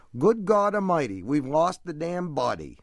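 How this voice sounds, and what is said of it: Put-on Down East Maine accent. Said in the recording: “you have to do it in the right accent. You have to get that Down East accent.”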